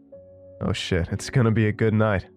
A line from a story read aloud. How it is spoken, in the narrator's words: Javon said with his infectious laugh